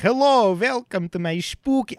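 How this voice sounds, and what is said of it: Vague put-on foreign accent. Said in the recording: “I don't even know what accent. That was almost Goldmember. I don't know what accent.”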